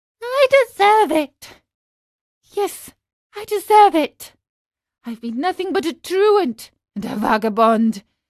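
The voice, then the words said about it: Weak, crying voice. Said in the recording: “cried out in a weak voice”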